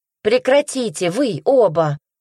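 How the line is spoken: Shout. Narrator (Russian): выкрикнула она

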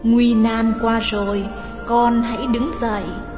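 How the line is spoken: Soft, tender motherly voice. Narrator (Vietnamese): Sư Thái Tịnh Huyền nói sẽ vào tai chàng bằng giọng ôn nhu như mẹ hiền nói với con

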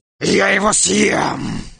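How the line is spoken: Furious bark. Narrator (Russian): Лев ужасно разгневался и рявкнул

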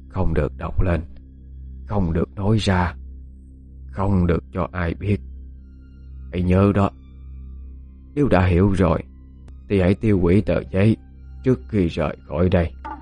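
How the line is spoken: Soft whisper. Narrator (Vietnamese): Bà Lâm khẽ nói với Dung

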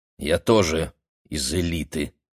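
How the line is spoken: Gloomy. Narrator (Russian): мрачно сказал я

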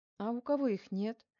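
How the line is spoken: Calm reply. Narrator (Russian): спокойно отреагировала Корецкая

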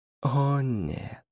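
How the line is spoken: Warm, smiling tone. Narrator (Russian): ласково улыбнулся Дориан

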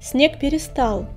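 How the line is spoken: Loud, breaking silence. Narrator (Russian): громко сказал он, чтобы нарушить призрачную тишину

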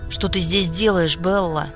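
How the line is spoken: Angry growl. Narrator (Russian): злобно рыкнул на меня Джейк

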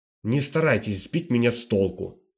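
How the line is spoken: Irritated. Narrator (Russian): раздраженно сказал Генар

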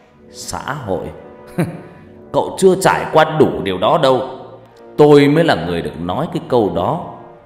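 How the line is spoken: Loud laugh, then speech. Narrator (Vietnamese): Ông Kiên Nát cười lớn, rồi ông ta nói

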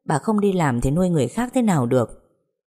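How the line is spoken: Mocking grinning speech. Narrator (Vietnamese): Ngân cười toe toét mỉa mai bà Cúc

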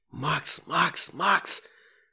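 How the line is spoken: Sudden whispered shout. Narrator (Russian): шепотом закричал вдруг Дэвид

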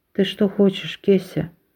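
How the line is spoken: Weak voice question. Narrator (Russian): Слабым голосом спросила она

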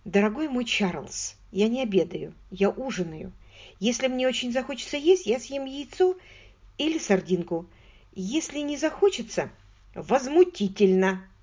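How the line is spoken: Plain. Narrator (Russian): сказал Чарльз

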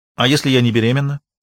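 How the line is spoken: Sharp question. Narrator (Russian): резко спросила Кристина

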